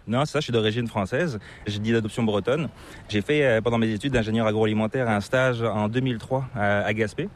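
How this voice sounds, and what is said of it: Slight hard-to-place non-Québécois accent. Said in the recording (French): “tu as une petite pointe d'accent qui est assez difficile de deviner... c'est pas l'accent québécois”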